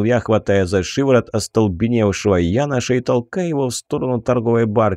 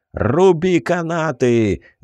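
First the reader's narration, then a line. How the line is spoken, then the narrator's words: Sergeant shouting. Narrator (Russian): заорал сержант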